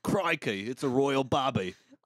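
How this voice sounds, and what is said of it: Put-on Australian accent. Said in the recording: “in a British accent, it's always Australian”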